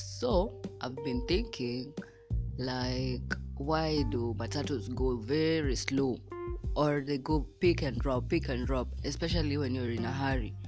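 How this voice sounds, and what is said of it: Unusually deep voice. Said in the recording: “my voice is so deep”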